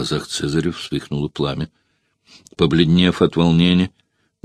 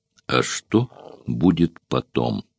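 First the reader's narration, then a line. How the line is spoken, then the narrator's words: Stern, heartfelt question. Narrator (Russian): Спартак спросил суровым и проникновенным голосом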